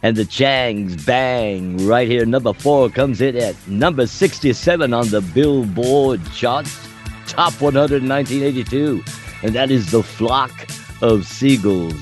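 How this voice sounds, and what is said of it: FM top-10 radio DJ voice. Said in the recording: “I'm going to slip into my FM top 10 DJ voice.”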